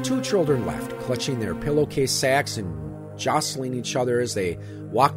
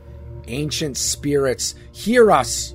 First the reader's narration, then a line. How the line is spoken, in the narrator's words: cried